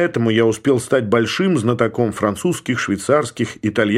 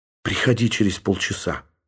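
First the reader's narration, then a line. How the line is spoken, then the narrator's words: Whisper. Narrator (Russian): прошептала она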